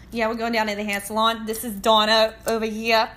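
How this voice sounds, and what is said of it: Exaggerated New Jersey accent. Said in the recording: “it's super loose in the Joyzy accent... It's a mix of Philly and like Staten Island, like New York.”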